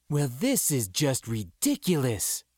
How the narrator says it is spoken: Carmi spat

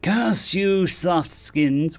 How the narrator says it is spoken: Wyam howled

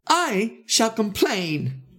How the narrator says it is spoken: wailed Vasily Ivanovitch

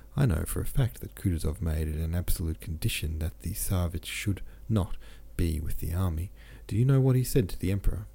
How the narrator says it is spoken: Prince Vasily said in a whisper

